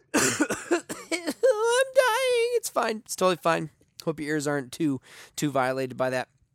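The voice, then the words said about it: Strained voice, coughing. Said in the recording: “I'm going to cough, by the way, because I'm dying. ... My voice is just killing me”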